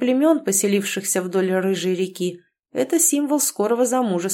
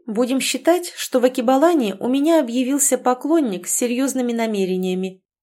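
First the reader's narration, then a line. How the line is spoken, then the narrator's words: Exaggeratedly carefree voice. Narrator (Russian): преувеличенно беззаботным голосом произнесла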